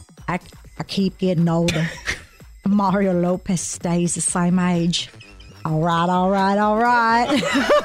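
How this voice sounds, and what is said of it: Imitates another person's voice. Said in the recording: “In my Matthew McConaughey voice. ... I think this is going to call for you to do an impression.”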